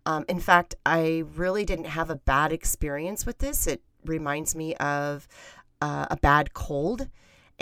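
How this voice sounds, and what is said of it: Sick-sounding voice. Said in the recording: “my voice sounds the way it does, and the reason it does is because I am getting over my own experience with the cold virus ... It sounds worse than I feel”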